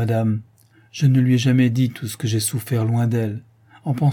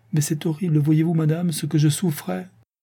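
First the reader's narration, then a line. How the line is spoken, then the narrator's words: Choked by sobs, pausing. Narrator (French): Albert Gérard, suffoqué par ses sanglots, s'interrompt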